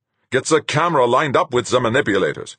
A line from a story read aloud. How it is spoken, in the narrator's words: Fuchs snapped